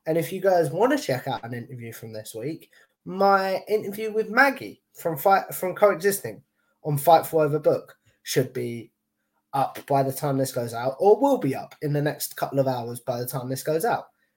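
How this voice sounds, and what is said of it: Posh British accent. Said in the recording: “me with my posh accent ... Yeah, she's right. She's right.”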